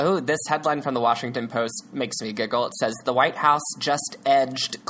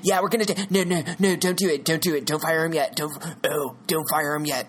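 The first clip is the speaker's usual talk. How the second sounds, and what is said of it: Imitated movie character voice. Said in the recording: “The president now sounds like Jeff Spicoli. I've got to work on this impersonation of him.”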